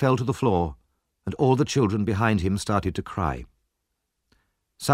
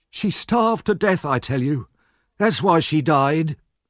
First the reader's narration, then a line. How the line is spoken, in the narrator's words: the man knelt on the floor and cried out